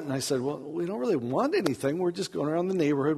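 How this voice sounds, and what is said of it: American accent. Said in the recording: “you have an American accent.”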